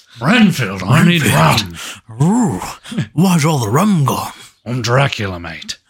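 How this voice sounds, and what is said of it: Jack Sparrow impression. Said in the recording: “he's been doing his Nic Cage impression. ... tell him that's just Jack Sparrow.”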